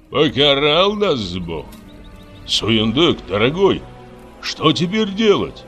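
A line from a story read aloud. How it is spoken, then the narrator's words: Exclaimed. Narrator (Russian): воскликнул Жексен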